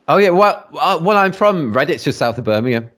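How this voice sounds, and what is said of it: English Midlands accent, West Country hint. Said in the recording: “Your accent? ... there's always a little bit of the West Country in there”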